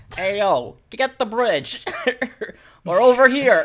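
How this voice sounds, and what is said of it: Yelling in Brooklyn New York accent. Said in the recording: “like a New Yorker construction foreman ... yelling at Pikmin in his in his New York Brooklyn accent.”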